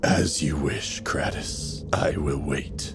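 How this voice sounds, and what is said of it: Deep character voice for dragon. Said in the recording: “You hear the dragon, this deep voice.”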